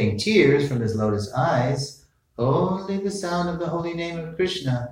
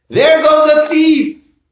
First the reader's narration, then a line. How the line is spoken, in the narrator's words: the people … they exclaimed